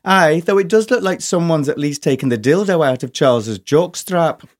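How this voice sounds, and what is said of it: Good put-on Scottish accent. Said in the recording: “A very good Scottish accent. ... It was very, very, very, very good.”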